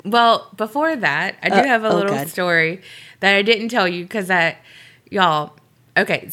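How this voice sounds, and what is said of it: Sick, worsened voice. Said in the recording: “this one got sick ... my voice is better, but ... is worse”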